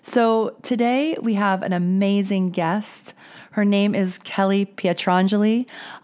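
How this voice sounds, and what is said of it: Voice sounds off, not quite normal. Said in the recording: “in a better voice situation than I was last week ... My voice is not quite mine, but definitely I hope you can understand me.”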